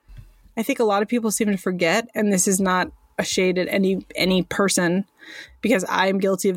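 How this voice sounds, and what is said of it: American accent. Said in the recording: “and I are both in the United States of America. I know that's probably pretty obvious uh, by our accents”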